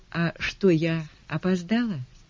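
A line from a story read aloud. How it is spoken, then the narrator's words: Timid question. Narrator (Russian): Мартина робко спросила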